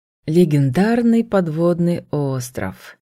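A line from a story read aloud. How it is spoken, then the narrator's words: Dreamy drawl. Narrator (Russian): мечтательно протянул астралицый брюнет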